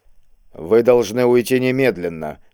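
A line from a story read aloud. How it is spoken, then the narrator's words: Grim. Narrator (Russian): мрачно повторил брат Александр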